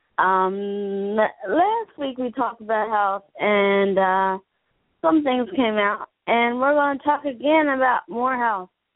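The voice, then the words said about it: Unwell, strained voice. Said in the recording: “Excuse my voice, I'm not feeling too good”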